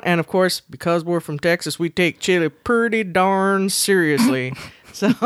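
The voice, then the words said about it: Exaggerated Southern accent. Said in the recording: “Southern accent. I have nothing against Southern accents, but I have something against your Southern accents.”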